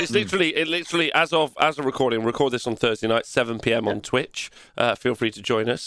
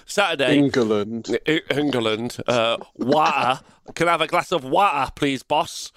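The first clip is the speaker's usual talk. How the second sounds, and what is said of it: Put-on Nottinghamshire English accent. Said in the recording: “fucking Nottinghamshire accent.”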